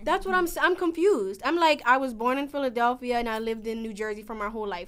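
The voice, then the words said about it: Southern country accent with a twang. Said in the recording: “they like think that I'm like country. Like they say that I have like a country accent ... you got a twang”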